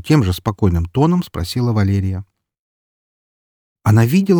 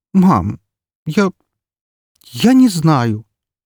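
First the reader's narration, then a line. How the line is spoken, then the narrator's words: Forced out reluctantly. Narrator (Russian): наконец выдавила она из себя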